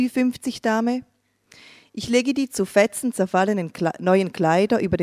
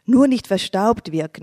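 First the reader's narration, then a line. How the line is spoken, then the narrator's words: Plain. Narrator (German): antwortet sie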